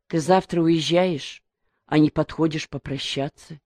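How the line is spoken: Quiet, mother. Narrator (Russian): тихо проговорила мать

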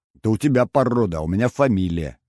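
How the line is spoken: Snapping retort. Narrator (Russian): огрызнулся я

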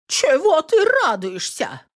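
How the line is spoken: Indignant. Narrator (Russian): возмущенно поворачивается

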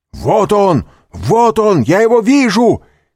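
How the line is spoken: Shout from behind door. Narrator (Russian): крикнул голос за дверью

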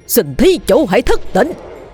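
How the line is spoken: Loud shout. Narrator (Vietnamese): miệng hét lớn

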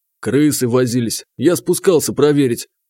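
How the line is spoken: Calm. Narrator (Russian): спокойно ответил Архип

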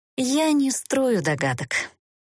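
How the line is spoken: Sighing. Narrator (Russian): вздохнула Эста

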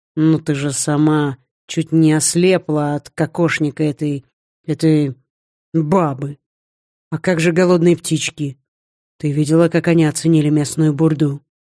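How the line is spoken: Sugary, unctuous little voice. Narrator (Russian): почти елейным голоском произнес жених

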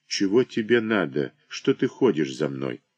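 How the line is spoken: Muttering. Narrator (Russian): Саша бормочет

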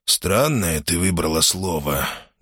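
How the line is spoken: Quiet remark. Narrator (Russian): негромко заметил он

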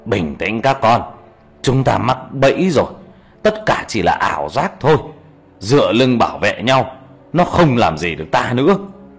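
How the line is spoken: Old man shouting. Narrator (Vietnamese): Ông cụ Càng quát lên

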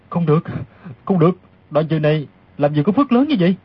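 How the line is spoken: Muttering aloud. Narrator (Vietnamese): Đoàn Dự lẩm bẩm thành tiếng

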